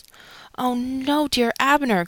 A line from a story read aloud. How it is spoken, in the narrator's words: cried Mary